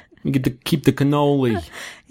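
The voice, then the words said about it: Vague put-on Italian-American accent. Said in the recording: “He isn't Italian ... when my voice is this shot, like I don't think I do even any sort of accent ... sort of an omni accent.”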